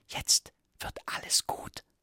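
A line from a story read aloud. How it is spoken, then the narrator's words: Whisper. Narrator (German): flüsterte er ihr zu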